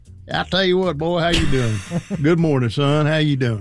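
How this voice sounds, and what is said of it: Put-on old Southern man accent. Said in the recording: “This old Southern man accent that I do for some reason.”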